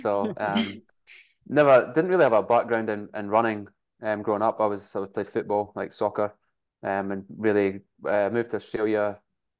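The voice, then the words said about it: Scottish accent. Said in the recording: “born in Scotland, that's where the accent is.”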